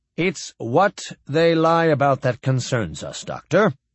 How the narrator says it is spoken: Fowler said smoothly

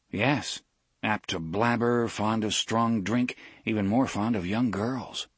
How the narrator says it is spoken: Will said

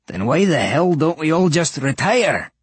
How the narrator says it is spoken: One Eye croaked

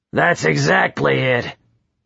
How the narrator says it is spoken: he grumbled

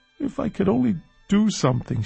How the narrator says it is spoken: sobbed

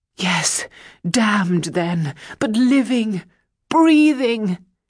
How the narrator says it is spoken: the young man cried

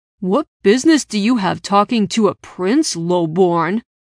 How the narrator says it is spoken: Jake growled

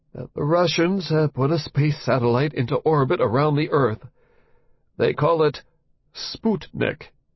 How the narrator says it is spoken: he said in that trembly voice

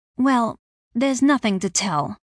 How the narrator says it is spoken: she replied tightly

